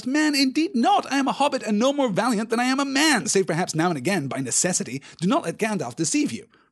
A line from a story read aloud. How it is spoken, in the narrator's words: cried Pippin, now thoroughly roused